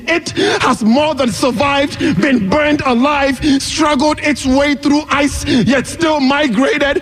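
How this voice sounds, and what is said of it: West African accent. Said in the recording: “my West African accent ... the way I sound ... this sexy, saucy, juiced, honed-toned inflection”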